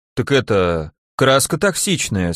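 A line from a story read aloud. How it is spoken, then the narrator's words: Unsure excuse, man. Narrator (Russian): слегка неуверенно оправдался мужик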